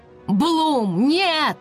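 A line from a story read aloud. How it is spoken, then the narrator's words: Shout. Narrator (Russian): закричал Скай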